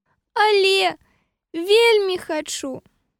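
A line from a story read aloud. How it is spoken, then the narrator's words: Sad reply. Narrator (Belarusian): Сумна адказала папялушка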